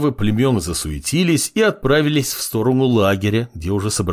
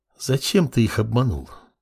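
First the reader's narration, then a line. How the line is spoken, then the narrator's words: Inquiring whisper. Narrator (Russian): Поинтересовалась снежный шепот, возникший словно из воздуха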